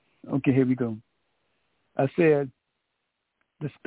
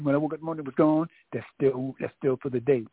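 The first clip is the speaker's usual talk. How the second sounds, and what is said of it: Excited, very fast speech. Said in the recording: “I'm getting so excited. I'm talking like a machine gun. Let me slow down.”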